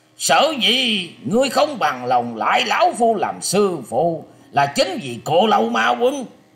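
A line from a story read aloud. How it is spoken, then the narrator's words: Old man's furious growl. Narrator (Vietnamese): Lão hết sức tức giận, sắc mặt tràn đầy sát khí, gằn giọng quát lên rằng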